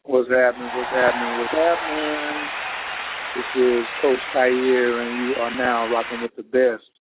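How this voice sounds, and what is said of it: Grown and sexy voice. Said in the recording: “I got my grown and sexy voice on”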